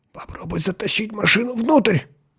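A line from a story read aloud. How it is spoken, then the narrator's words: Tense whisper. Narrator (Russian): напряженно прошептал Ланье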